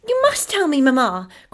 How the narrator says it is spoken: cried Effie

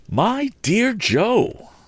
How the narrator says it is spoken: cried in desperation

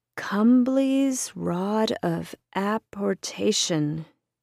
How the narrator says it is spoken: he said aloud, slowly

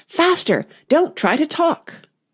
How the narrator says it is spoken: the queen ... she cried

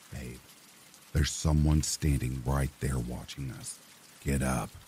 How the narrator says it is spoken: Somehow I managed to keep just calm enough to whisper in Mia's ear

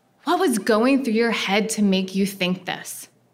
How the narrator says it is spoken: she asked

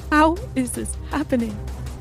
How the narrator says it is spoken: I sobbed

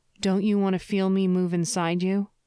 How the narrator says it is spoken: Her moan

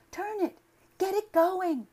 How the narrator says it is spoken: cried the girl

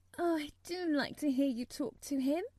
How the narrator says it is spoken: Mary said, laughing delightedly

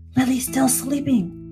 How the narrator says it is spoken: she hissed

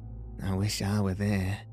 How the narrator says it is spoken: said Bessie, wearily

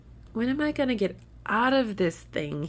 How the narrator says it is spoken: He groaned

